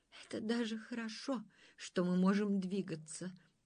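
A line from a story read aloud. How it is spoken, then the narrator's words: Sighing. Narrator (Russian): вздохнула душа дуба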